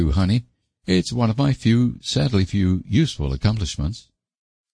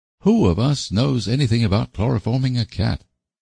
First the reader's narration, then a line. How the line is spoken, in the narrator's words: demanded Anne gloomily